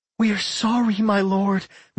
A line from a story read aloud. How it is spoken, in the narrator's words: Michelle begged